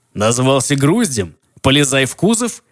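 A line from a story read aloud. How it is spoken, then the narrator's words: Sarcastic reply. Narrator (Russian): ехидно отозвался голос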